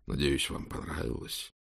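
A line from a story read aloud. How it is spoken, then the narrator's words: Whispered question. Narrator (Russian): Хулиан спросил шепотом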